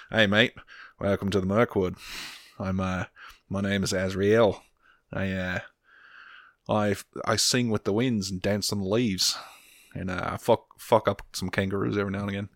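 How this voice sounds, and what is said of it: Put-on Australian accent. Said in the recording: “add an Australian accent to that”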